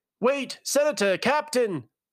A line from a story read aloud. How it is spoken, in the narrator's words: one of the men called out